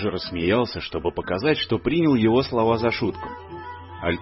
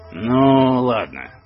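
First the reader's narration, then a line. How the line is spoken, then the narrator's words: Grumble. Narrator (Russian): проворчал мой дядя Отто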